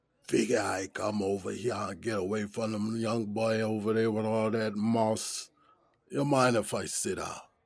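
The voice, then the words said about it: Thick Gullah Geechee accent, deep raspy. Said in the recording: “a thick Gullah Geechee accent with a deep, raspy voice”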